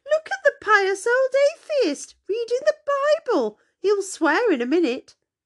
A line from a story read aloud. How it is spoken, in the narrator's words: he cried to Maggie